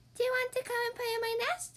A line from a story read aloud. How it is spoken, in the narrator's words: squeaked Mouse